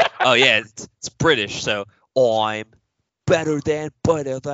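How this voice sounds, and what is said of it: Usual voice. Nothing is said of it.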